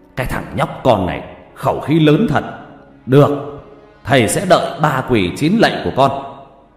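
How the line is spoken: Furious, through gritted teeth. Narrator (Vietnamese): ông Năm giận đỏ mặt tía tai, gằn giọng

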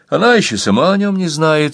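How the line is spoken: Forced cheerful answer. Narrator (Russian): ответил Рудольф, стараясь говорить бодро

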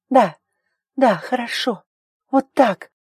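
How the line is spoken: Sobbing. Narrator (Russian): Ари всхлипывала

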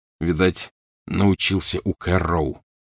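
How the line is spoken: Gloomy. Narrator (Russian): мрачно сказал Гарри

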